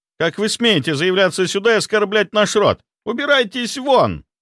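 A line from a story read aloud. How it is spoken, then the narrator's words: Shrill shriek. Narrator (Russian): взвизгнул он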